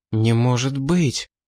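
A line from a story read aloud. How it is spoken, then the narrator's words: Samurai's breathless exhale. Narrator (Russian): выдохнул самурай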